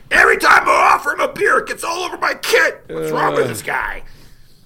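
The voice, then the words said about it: Character voice impression. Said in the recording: “That was a great impression. I actually thought he was there with you.”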